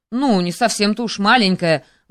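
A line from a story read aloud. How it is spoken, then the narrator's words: Interrupting exclamation. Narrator (Russian): воскликнул, перебив его император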